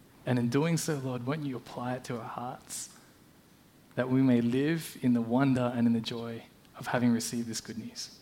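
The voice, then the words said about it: Australian accent. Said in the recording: “You can probably tell by my accent that I'm Australian, or at least I grew up in Australia.”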